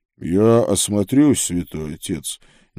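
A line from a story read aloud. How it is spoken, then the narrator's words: Quiet. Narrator (Russian): негромко сказал брат Курвус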